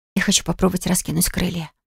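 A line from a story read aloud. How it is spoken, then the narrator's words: Whispered. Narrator (Russian): прошептала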